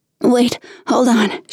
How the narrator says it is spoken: panted

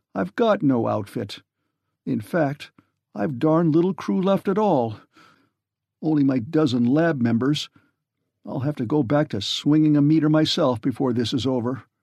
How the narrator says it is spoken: he said brokenly

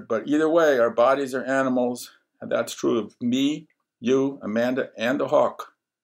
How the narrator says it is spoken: Cassandra roared

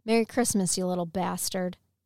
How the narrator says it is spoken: and then laughed

